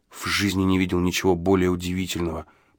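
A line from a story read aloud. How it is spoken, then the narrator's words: Whisper. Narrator (Russian): прошептал я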